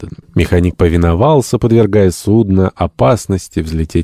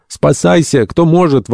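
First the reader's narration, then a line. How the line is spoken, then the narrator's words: Panicked crowd yelling. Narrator (Russian): вопили одни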